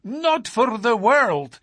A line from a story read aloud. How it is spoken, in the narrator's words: he cried, with a gesture of horror